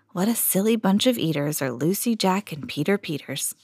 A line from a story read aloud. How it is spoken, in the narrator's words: murmur weakly to herself